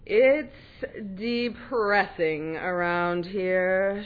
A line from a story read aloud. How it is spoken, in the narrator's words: might mutter